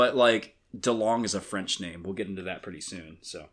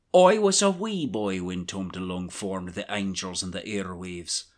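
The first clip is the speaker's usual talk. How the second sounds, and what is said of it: Put-on Irish accent with trill. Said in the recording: “lean into this Irish accent ... we heard that trill. Yeah. That trill was beautiful.”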